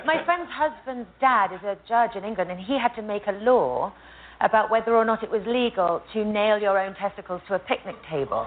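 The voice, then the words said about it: British accent. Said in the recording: “British accent ... no matter what she is saying, it sounds sexy thanks to that accent”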